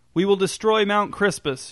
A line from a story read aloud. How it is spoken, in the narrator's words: shouted Ezra